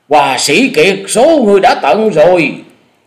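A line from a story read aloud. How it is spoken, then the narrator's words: Loud roaring voice. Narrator (Vietnamese): Lão thứ năm trong thất điểu là Lan Điểu Phi Hồng xe bước lên gầm to nói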